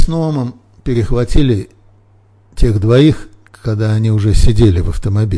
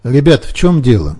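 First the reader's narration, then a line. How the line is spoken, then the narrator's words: Plain question. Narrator (Russian): спросил Ноам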